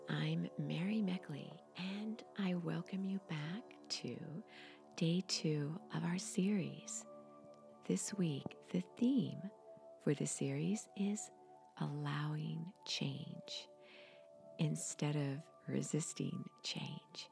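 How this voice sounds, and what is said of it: Scratchy voice. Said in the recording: “my voice is a little scratchy. I'm still getting over a cold.”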